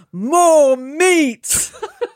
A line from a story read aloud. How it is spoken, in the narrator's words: Vanessa, who boomed